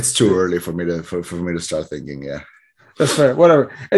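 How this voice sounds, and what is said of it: Hoarse, strained voice. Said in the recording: “my voice is gone because I was singing”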